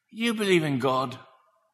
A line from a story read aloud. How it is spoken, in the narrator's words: He whispered